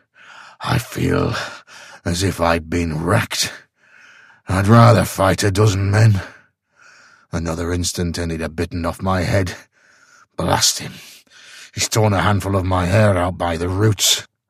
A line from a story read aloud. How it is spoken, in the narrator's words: panted